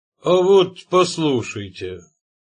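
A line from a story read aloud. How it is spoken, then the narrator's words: Solemn, with dramatic pause. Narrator (Russian): сказал Пат, и, сделав выразительную паузу, торжественно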